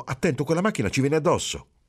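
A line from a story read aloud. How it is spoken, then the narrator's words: Feigned frightened exclamation. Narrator (Italian): Marcello finse di spaventarsi e esclamò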